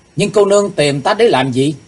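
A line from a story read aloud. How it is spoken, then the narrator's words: Loud. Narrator (Vietnamese): chàng lớn tiếng nói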